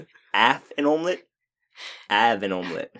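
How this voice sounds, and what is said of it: Put-on funny regional accent. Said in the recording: “talk a little bit funny ... can only do one accent, and he can only say one thing in that accent ... Of the accent”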